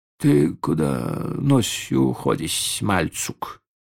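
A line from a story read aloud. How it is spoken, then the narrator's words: Sleepy young man calling. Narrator (Russian): сонно окликнул Сергея хозяин кофейный, молодой турок Ибрагим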